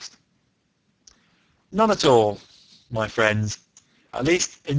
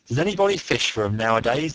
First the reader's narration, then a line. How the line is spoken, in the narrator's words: the Canadian asked